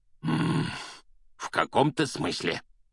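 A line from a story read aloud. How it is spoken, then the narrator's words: Growled. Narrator (Russian): прорычал дядя Вернон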